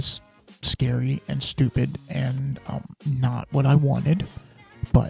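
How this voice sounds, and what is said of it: Usual voice. Nothing is said of it.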